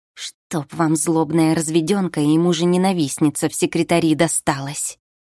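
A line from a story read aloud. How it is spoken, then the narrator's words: Angry hiss from next room. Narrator (Russian): Зло прошипела Анжела уже из приемной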